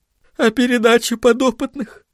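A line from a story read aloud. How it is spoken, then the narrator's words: Sobbing. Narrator (Russian): всхлипнула Барбайл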